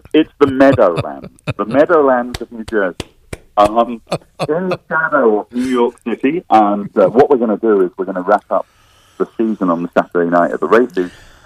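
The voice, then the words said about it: Slight non-American accent. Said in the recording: “he has a bit of an accent, okay? Just a little bit.”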